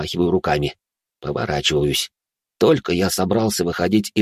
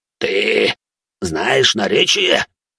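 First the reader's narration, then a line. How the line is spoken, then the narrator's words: Hissing. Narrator (Russian): прошипел разноглазый на человеческом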